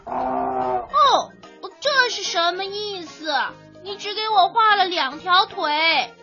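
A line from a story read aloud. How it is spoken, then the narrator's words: Startled cry. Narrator (Chinese): 他突然跳起来，惊叫道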